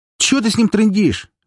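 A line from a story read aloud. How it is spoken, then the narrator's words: Shrill question. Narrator (Russian): визгливо спросил третий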